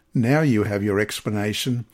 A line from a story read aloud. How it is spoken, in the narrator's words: she said